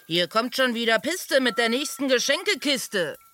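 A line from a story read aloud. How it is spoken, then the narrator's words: Called out. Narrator (German): rief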